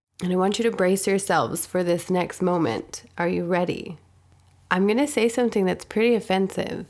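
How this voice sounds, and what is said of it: Froggy, slightly hoarse voice. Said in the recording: “I do have a little bit of a cold ... my voice is a little bit, um, well, froggy”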